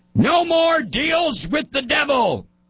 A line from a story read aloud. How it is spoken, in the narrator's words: Ace screams